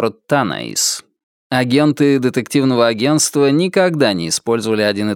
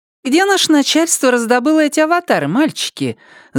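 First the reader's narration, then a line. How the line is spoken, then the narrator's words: Pleasant girlish voice. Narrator (Russian): заявил Бывалый приятным девичьим голосом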